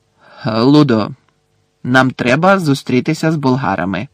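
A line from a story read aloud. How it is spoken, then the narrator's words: Sharp interruption. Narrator (Ukrainian): різко урвав Бекмена містер Кравч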